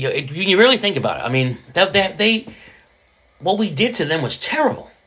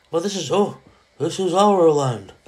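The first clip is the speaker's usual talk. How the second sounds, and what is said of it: Stereotyped Native American character voice. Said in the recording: “That's my Indian impersonation.”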